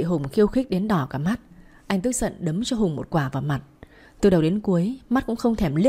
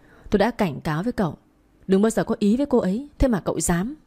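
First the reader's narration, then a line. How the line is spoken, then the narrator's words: Angry, through gritted teeth. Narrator (Vietnamese): đôi mắt long lên giận dữ nghiến răng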